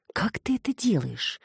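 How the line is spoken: Breathy whisper in ear. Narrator (Russian): выдохнула Саша ему в ухо

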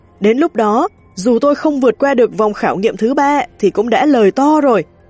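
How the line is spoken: Hearty loud laughing speech. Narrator (Vietnamese): Một người tu ma có vẻ phóng khoáng cười to, nói

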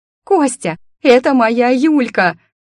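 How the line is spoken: Frenzied yelling. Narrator (Russian): в угаре орала

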